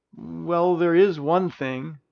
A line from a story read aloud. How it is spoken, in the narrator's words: Princess Alodia timidly said